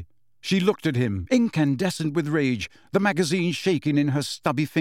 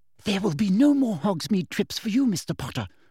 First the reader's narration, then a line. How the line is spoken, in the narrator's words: whispered